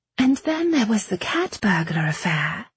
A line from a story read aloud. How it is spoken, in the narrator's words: Bradamant said sweetly